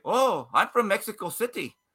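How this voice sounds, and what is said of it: Bad put-on Mexican accent. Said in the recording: “that's a terrible Mexican accent ... I know that was a little Asian. Indian.”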